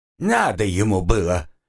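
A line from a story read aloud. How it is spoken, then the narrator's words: Indignant outburst. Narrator (Russian): возмутилась работница ЖЭКа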